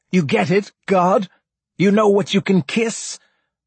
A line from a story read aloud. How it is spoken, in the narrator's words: cried